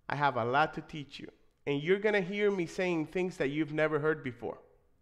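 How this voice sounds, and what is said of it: Noticeable non-native accent. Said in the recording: “this funny accent ... I speak with an accent”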